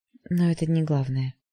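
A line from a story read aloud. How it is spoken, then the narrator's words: Gentle interruption. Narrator (Russian): мягко оборвала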